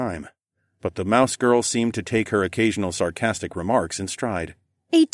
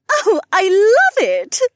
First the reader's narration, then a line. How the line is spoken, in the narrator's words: Janel squealed